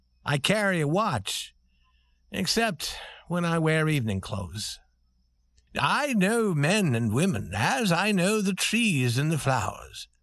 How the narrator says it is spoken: said the prince warmly and proudly

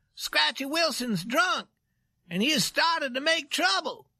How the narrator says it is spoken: He cried

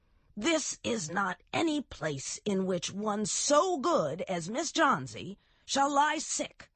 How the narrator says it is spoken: yelled Behrman

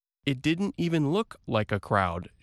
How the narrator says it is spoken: she said

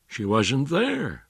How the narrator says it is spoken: he said

